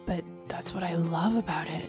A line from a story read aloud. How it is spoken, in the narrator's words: he murmured, his lips softly caressing my neck